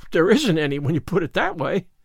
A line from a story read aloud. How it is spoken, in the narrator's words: gasped Anne, rather as if somebody had thrown cold water over her